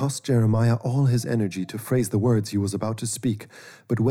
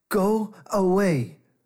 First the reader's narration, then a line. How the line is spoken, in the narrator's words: shouted